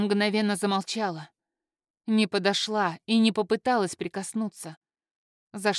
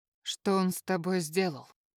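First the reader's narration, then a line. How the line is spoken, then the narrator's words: Quiet question. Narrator (Russian): тихо спросила Авра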